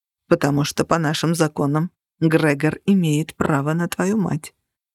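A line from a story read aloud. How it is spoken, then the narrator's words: Quiet reply. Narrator (Russian): тихо ответил Минчарос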